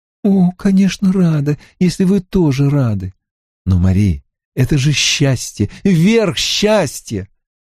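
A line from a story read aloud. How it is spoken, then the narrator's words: Exclaimed. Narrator (Russian): воскликнул он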